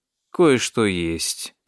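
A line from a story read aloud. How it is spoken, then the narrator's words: Drawn-out drawl. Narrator (Russian): протянул Эдвард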